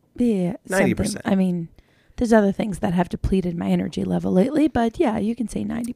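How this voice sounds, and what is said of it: Slightly raspy voice. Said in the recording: “I'm still a little raspy, but I'm better. Yeah, my voice is much better ... there's a little bit. There's a little lingering.”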